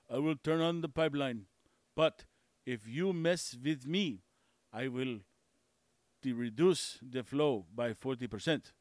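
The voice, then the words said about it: Weak put-on Russian accent. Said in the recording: “That's my best Russian accent. I'm not good. I'm not good at Russians.”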